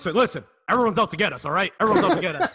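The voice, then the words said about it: Ranting conspiratorial media-bro character voice. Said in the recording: “The media bro, I call him. That's the Alex Jonesian media bro. ... That's a good impression of him, actually. It's a really good impression.”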